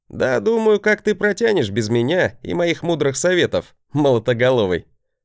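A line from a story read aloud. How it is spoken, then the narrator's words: Laughing bravado. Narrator (Russian): Хохотнул, показывая свою обычную браваду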